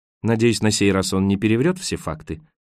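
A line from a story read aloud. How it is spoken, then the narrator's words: Dry. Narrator (Russian): сухо ответил Роэн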